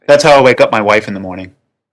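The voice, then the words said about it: Serious, deadpan delivery. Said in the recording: “You said that really seriously. ... Very convincing.”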